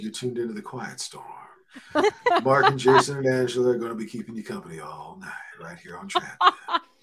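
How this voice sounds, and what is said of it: Low, deep, soothing radio voice. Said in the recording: “give him your low, deep voice. It's very comforting.”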